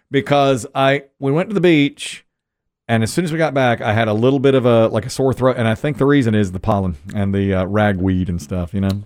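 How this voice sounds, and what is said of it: Hoarse, fading voice. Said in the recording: “I'm losing my voice. ... I can hear it.”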